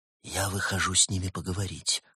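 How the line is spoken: Whispered. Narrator (Russian): шепотом сообщил Улис

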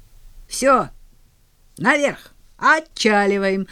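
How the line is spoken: Playful shout. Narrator (Russian): закричал он шутливо

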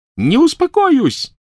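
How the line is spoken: Shrieked. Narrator (Russian): завизжала она

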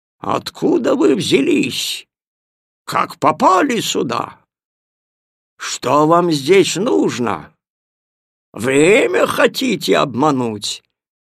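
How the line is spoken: Angry thunderous voice. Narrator (Russian): Он гневно упер в детей палец и прогремел

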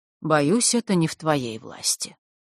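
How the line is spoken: Sad. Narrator (Russian): грустно покачал головой Александр

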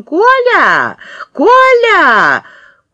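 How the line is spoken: Thin high cry. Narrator (Russian): закричала в окно тоненьким голосом

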